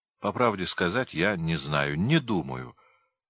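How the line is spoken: Calm lie. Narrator (Russian): спокойно солгал

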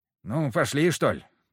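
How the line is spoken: Grumbling. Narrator (Russian): проворчал он

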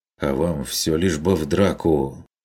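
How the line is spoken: Grumble. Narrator (Russian): Буркнул Карл Штефан

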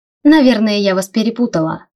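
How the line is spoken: Wry snort. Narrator (Russian): хмыкнула я

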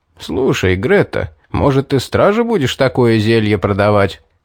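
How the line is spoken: Laughing suggestion. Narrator (Russian): предложил, смеясь, Стоун

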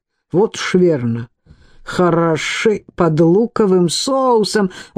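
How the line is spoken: Sudden hoarse exclamation. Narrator (Russian): Он вдруг хрипло воскликнул

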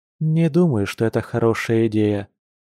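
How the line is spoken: Honest, with deep sigh. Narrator (Russian): честно ответила она, глубоко вздохнув

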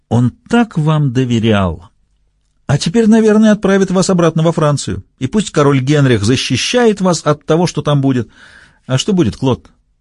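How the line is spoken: Almost cheerful repeated question. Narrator (Russian): Почти весело переспросил

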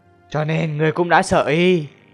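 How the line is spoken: Sudden loud laughter. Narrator (Vietnamese): Tư Mã Siêu Quần đột nhiên cười, cười lớn

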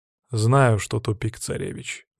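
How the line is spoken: Gruff mutter. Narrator (Russian): буркнул я в ответ

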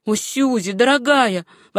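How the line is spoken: Exclaimed. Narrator (Russian): воскликнула Руфь

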